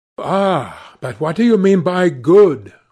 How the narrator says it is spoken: cried Basil Hallward

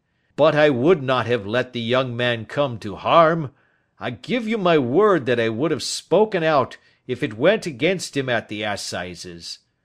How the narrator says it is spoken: he cried

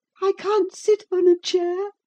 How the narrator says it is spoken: sobbed the boy

